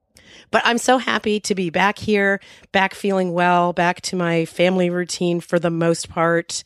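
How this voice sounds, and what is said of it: Rough, slightly hoarse voice. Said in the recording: “My voice is still not 100% ... my voice is going to be a little rough around the edges for a while yet. That's what a horrible hacking cough will do to you”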